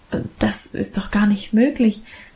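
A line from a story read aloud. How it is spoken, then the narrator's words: Overwhelmed stammering. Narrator (German): stammelte ich überwältigt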